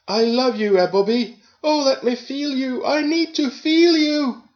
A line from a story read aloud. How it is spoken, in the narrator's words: screamed as we got an orgasm